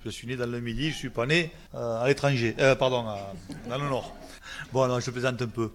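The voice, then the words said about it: Southern French (Midi) accent. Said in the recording (French): “l'accent, bon, moi j'ai l'accent du Midi”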